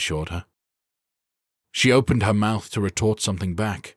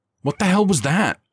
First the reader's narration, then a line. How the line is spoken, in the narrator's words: Skylar cried, frantically